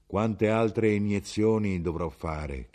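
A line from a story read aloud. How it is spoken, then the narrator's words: Plain question. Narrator (Italian): chiese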